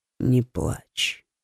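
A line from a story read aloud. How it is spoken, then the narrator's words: Barely audible whisper. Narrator (Russian): сказал он едва различимым шепотом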